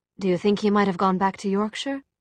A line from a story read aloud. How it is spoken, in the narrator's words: said Tessa